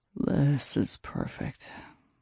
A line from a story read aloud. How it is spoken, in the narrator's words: he murmured into my hair